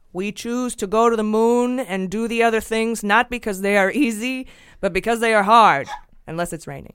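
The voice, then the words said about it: Put-on accent. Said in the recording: “I gotta get my accent right.”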